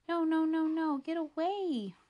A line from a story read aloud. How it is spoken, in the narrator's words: Romeo whines